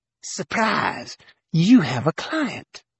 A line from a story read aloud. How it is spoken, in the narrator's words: she hissed through clenched teeth, loud enough for Wes to hear up front